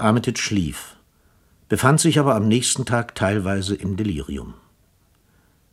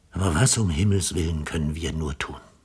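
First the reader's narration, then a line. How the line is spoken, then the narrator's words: Repeated muttering. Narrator (German): murmelte er nur immer wieder vor sich hin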